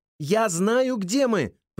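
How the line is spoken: Shouting. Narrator (Russian): прокричала она

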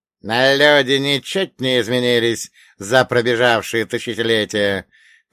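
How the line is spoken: Insinuating old man's rustle. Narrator (Russian): прошелестела темнота вкрадчивым голосом старика-серба

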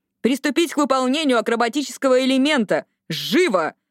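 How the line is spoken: Barked command. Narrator (Russian): гаркнула она командным голосом

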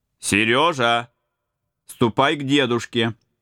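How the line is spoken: Loud. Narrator (Russian): Отец громко сказал

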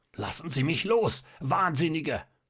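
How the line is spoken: Half-choked scream. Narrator (German): schrie der Doktor mit schon halb erstickter Stimme

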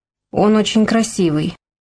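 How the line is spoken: Dejected voice. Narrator (Russian): упавшим голосом сказала Инна

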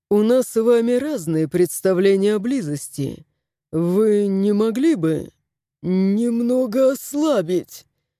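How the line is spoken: Choked wheeze. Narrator (Russian): Прохрипел главный редактор, на шее которого сжалась петля гирлянды

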